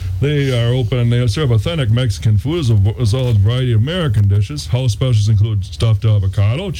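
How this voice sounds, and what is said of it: Usual voice. Nothing is said of it.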